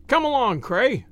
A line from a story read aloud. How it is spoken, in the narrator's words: cried